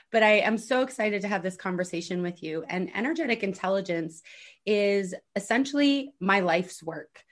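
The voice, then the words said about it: Slightly scratchy voice. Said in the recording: “my slightly scratchy voice ... even if my voice isn't completely here”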